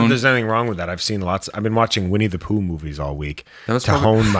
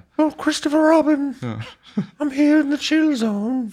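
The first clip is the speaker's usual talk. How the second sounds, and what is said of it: Winnie the Pooh cartoon character voice. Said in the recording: “my Winnie the Pooh impression ... Fuck, that's good.”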